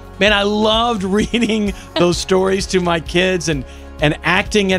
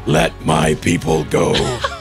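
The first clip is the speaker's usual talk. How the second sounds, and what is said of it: Moses character voice, Batman-like. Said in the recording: “impersonating the characters, especially Moses ... Dad, you always sound like Batman. ... You're always using your Batman voice. ... this is my Moses voice”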